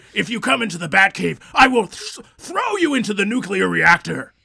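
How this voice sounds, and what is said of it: Screamed attempt at Batman voice. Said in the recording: “Mine was somewhere between a scream and a Batman. Scream man.”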